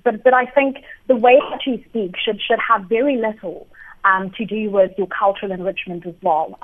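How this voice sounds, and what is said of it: Speaker with a noticeable accent. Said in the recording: “I have an accent”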